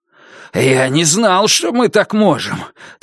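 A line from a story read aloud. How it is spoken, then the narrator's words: Heavy exhale. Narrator (Russian): тяжело выдохнул он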